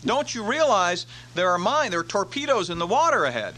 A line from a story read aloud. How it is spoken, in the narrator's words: the captain on board the Brooklyn yelled across to him